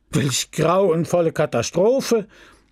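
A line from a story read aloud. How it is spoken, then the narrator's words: Exclaimed. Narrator (German): rief der Pharmazeut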